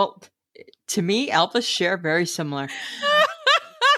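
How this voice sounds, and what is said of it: Usual voice. Nothing is said of it.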